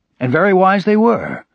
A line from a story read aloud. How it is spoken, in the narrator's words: Kotar exclaimed in the same excited tone